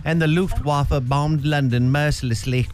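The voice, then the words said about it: Put-on British accent. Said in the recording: “If somebody has a British accent, it makes me kind of sleepy ... please be a British guy”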